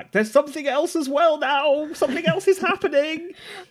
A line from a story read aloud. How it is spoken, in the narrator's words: Koshi turns over his shoulder to shout back